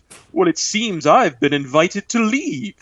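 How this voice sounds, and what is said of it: Put-on British accent. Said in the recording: “he says in a British accent”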